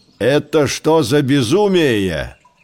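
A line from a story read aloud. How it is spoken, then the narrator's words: Angry. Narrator (Russian): сердито начал Бульдео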